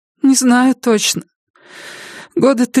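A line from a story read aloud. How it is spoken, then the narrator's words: Tearful answer after deep sigh. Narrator (Russian): ответила она, глубоко вздохнув и вытерев щеки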